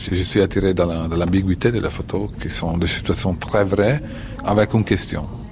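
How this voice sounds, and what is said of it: Italian accent speaking French. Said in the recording (French): “Et avec un bel accent italien.”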